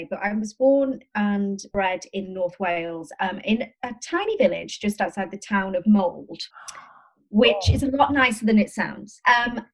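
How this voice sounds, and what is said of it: Mixed, shifting regional British accent. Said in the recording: “my accent is all over the place ... It's a lovely oscillating accent.”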